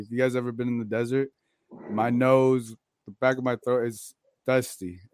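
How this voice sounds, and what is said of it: Hoarse, raspy voice. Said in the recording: “my voice is gone ... I don't know if you guys could hear my voice a little raspy”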